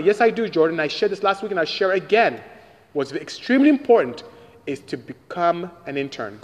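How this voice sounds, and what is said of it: Nigerian West African English accent. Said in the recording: “do I have a lovely accent? I'm Nigerian from West Africa.”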